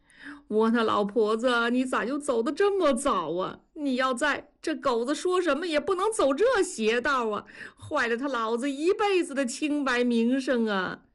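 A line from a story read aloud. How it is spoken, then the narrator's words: Wailing lament. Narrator (Chinese): 大庄哭诉起来，说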